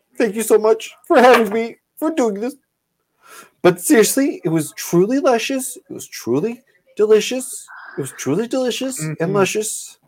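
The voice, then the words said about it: Spot-on impression of Gordon. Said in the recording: “That is spot on. ... a good impression. ... Fairly accurate representation. ... how good an impression that was ... that impression was so good of Gord. ... Like the top fucking notch, man.”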